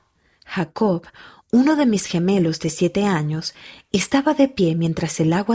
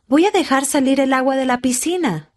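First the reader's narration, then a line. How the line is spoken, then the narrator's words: Shouting. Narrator (Spanish): gritó él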